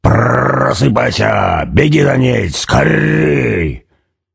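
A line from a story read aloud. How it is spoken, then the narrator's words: Rough growling call. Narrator (Russian): Он уже не мысленно, а грубым рычащим голосом звал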